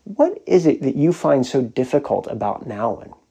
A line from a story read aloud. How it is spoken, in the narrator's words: gently began